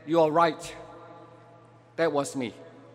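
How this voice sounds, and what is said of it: Very calm voice. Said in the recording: “in a very calm voice”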